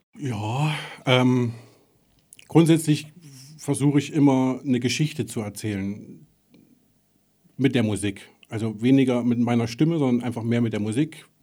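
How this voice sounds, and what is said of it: Thuringian German accent. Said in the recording (German): “ich komme aus Thüringen. Man hört es vielleicht auch, ich habe einen Akzent”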